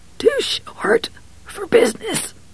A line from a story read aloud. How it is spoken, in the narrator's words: Billingsley whispered